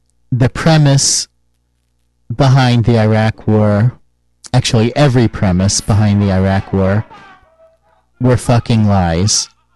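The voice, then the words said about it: Strained, worn-out voice. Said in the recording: “I'm losing my voice. I'm not as sick as I was during the last show, but I'm talked out.”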